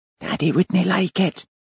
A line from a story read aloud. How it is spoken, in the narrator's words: A little girl whispered